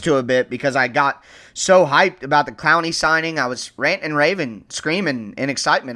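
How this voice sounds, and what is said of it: Hoarse, strained voice. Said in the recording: “hear it in my voice. I'm kind of losing my voice”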